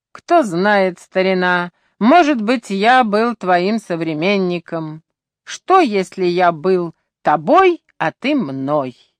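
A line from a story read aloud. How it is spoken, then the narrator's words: Self-mocking laugh. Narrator (Russian): Я вновь засмеялся над своей глупостью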